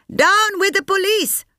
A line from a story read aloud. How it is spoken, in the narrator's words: Sampath yelled